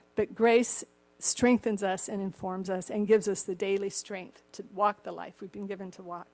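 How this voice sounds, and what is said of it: Slightly cracked voice. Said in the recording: “My voice is a little cracked here.”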